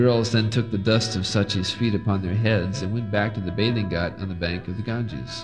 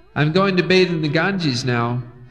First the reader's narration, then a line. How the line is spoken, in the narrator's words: he shouted to Mother Sachi